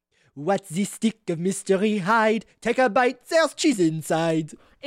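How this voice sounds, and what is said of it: Line repeated in a put-on accent. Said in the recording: “with the accent, obviously, it's more like”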